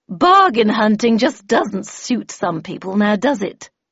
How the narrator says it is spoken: Miss Havisham, who said in an unnecessarily provocative tone

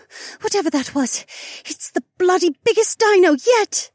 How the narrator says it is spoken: Becca panted

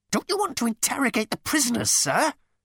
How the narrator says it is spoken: he squealed

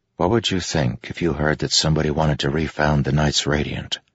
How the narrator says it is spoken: Kaladin said softly to Teft

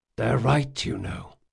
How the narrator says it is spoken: whispered Jean

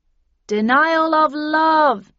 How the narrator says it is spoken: yelled Ib and Ob from behind me

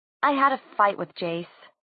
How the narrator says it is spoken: she said, trying to keep her voice even

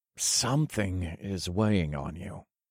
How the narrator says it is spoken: I said in a vague, knowing voice

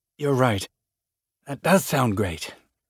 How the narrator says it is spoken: he said through clenched teeth

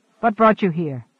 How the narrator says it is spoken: The other sighed

